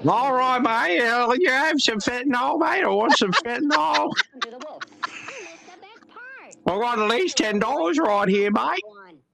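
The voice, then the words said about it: Imitates a Melbourne street drug user. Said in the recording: “do your best impression of Melbourne's freaking whatever you want to call them”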